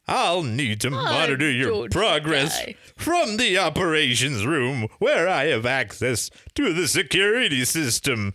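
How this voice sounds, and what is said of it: George Takei-like cartoon character voice. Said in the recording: “little George Takei-ish ... What Hanna-Barbera cartoon had that character voice in it? ... It's a little George Takei, you're right.”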